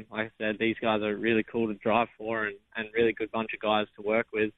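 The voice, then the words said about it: Australian accent. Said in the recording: “Obviously, you're from Australia with that accent. ... the Aussie”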